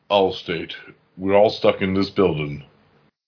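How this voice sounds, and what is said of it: Imitates the Allstate commercial spokesman. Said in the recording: “that you did that impersonation”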